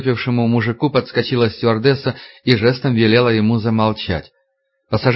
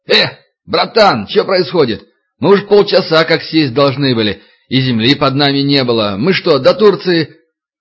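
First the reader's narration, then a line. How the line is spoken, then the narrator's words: Yelling. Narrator (Russian): один из пассажиров заорал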